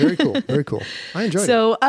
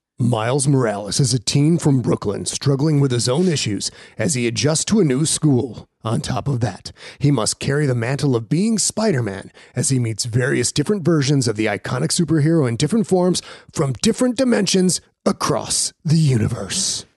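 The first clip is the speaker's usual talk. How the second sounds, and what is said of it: Movie announcer voice. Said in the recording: “announcer voice”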